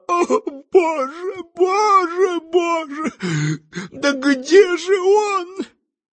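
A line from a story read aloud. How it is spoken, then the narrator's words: Sobbing woman, then crying out. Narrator (Russian): красавица, в которой нетрудно было узнать личную секретаршу заведующего, взрыдала, а затем и вскричала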